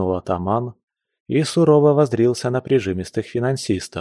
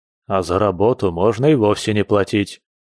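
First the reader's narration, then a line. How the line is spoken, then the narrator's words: Grumble. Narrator (Russian): пробурчал Андрюха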